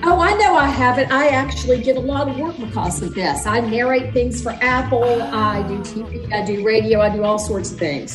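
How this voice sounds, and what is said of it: Southern American accent. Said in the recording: “I'm so glad I got a real Southerner. I can hear your accent that you probably don't know you have, and it's wonderful.”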